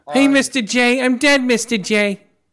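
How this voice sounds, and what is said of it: Harley Quinn character voice. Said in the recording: “did the Harley Quinn voice?”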